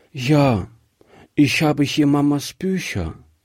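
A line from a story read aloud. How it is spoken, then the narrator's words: Sad little girl. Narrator (German): sagte die Kleine traurig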